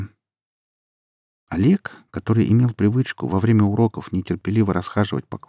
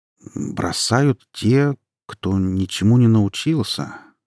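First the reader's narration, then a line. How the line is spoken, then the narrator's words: Slow. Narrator (Russian): медленно проговорил он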